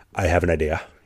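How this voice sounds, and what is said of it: Put-on Swedish accent. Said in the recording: “in his like Swedish accent”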